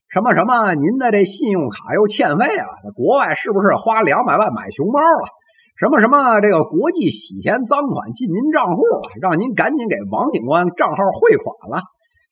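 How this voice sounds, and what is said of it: Imitated Fujian Anxi accent. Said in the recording (Chinese): “这十有八九啊就是福建安溪的口音 ... 这舌头捋不直的这口音”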